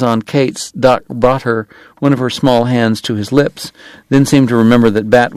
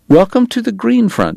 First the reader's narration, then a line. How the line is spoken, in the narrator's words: Bat said tightly